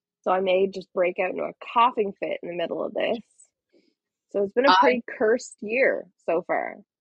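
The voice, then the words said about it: Rough, sick-sounding voice. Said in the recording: “I did have COVID over Christmas... I'm just getting over it. And that's why my voice sounds fucked.”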